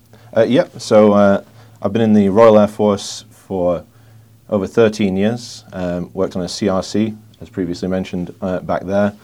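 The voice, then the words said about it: Noticeable foreign accent. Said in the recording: “We hear your accent.”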